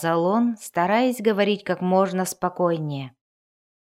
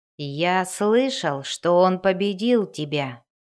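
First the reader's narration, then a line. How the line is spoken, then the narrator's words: Plain. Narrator (Russian): сказал Расситер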